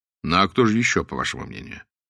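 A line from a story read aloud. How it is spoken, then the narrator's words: Weary, distracted question. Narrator (Russian): Блад задал свой вопрос устало, занятый совсем другими мыслями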